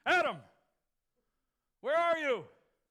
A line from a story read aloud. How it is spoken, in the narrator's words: he hollers out